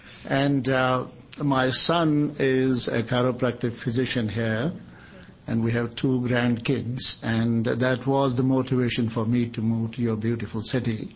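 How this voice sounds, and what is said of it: Midwestern American accent. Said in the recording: “you have a Midwest accent.”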